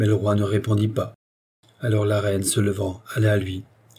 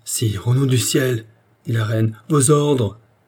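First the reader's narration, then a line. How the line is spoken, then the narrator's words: Queen pleading. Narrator (French): la reine implorait de la voix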